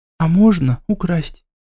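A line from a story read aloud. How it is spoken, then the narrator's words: Whisper. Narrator (Russian): прошептала Ника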